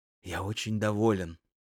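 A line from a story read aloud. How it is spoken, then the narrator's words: Whispering. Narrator (Russian): шептал Грохольский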